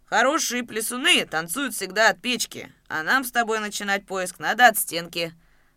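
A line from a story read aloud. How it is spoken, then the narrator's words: Deep voice, old man. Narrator (Russian): пробасил старый кузнец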